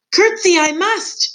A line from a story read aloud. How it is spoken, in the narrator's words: shouted Mig